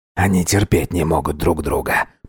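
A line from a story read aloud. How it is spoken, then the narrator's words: Muttering. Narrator (Russian): пробормотал Эльбрус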